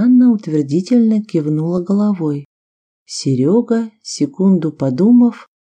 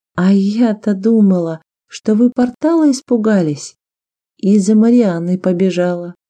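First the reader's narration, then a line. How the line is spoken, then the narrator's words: Laughing. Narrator (Russian): засмеялась Виктория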